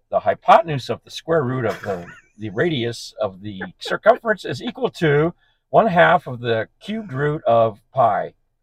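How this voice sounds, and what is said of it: Imitates another person's voice. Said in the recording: “doing an impression of me”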